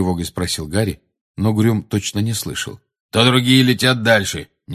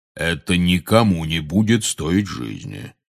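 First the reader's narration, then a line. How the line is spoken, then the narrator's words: Soothing deep voice. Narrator (Russian): успокаивающе пробасил Кингсли Бруствер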